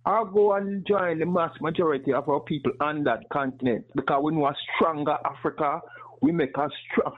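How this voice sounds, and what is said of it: Man with a distinctive foreign accent. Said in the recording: “I love ... accent, man. I want an accent like that... a cool accent like that”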